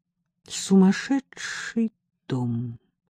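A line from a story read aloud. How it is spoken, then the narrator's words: Quiet. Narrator (Russian): тихонько сказала Элла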